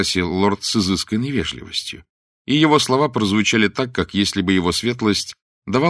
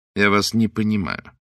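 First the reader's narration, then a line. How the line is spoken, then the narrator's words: Cold remark. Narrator (Russian): холодно заметил лорд Джулиан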